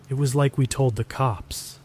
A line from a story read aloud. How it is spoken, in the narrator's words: he started, his voice a rehearsed monotone